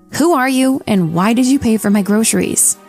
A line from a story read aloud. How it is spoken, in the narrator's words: in a very snappy tone